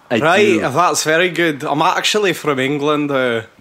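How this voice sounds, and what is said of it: Put-on Scottish accent. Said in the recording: “you have a Scottish accent ... because I committed to that at the start”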